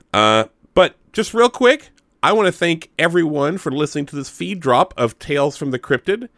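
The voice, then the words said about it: Slightly congested, sick-sounding voice. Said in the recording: “I've got a little bit of a cold”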